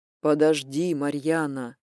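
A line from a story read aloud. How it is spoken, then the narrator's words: Tired voice. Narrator (Russian): устало произнес он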